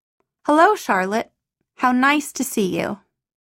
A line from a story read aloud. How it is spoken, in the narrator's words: said quietly, simply